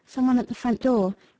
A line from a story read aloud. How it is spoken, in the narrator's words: Maldon faintly murmured